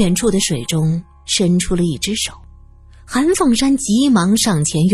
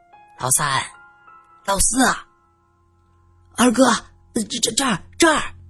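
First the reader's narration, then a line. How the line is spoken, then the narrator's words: Low calling. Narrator (Chinese): 他一边走一边小声喊着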